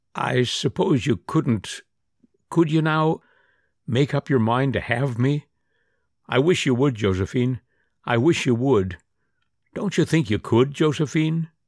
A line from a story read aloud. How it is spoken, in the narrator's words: he said huskily